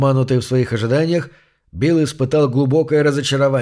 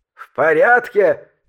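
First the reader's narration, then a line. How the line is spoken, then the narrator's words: Frantic scream. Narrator (Russian): истошно завопил Синг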